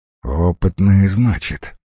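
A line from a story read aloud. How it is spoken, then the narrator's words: Menacing through teeth. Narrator (Russian): недобро процедил главарь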